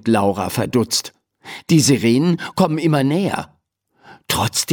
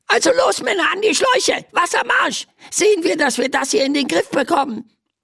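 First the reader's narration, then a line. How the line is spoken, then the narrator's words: Squeaky voice from below. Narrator (German): piepst eine Stimme von unten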